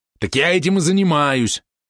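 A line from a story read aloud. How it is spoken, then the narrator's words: Angry yap. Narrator (Russian): зло тявкнул на него Валерон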